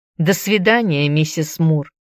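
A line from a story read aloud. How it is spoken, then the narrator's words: Indifferent. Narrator (Russian): Он сказал это самым безразличным тоном, словно мы даже и не были друзьями, словно я абсолютно ничего не значу для него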